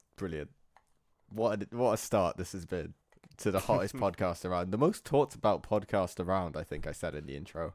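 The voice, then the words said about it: Sick, thick congested voice. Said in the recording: “Did your voice crack there? ... I'm sick. I'm still recovering ... forgive my claggy voice, my frequent coughing and sniffing”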